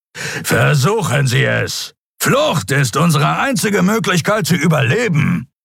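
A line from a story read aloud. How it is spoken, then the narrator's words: Growling. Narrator (German): knurrte Sron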